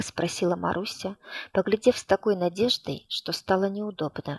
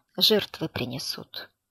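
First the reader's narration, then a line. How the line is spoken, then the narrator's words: Quiet. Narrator (Russian): тихо сказал Николай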